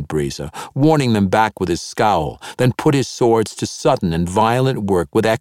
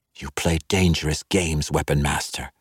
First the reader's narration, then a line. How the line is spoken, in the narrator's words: she whispered, as if she believed that lowering her voice would somehow unnerve the man